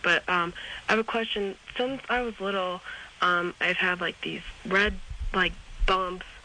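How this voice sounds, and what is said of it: Sick, rough-sounding voice. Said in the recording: “excuse my voice, I got a little bit of a crud.”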